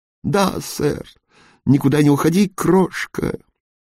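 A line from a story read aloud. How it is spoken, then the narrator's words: Hoarse laughing. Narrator (Russian): Он сипло засмеялся, будто отколол невероятно смешную шутку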